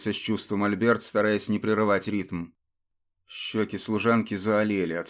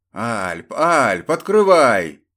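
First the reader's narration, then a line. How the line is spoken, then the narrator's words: Loud, from the corridor. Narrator (Russian): донеслось громко из коридора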